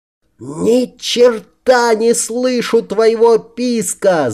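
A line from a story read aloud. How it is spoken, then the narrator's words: Yelled. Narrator (Russian): заорал я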